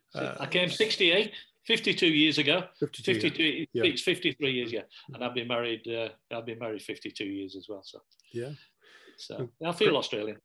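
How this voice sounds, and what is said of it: English accent. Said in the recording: “the only thing English about me is my accent”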